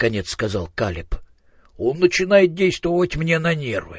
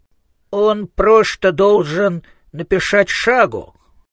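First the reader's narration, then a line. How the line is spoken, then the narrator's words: Resolute lisp. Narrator (Russian): решительно прошепелявил Коэн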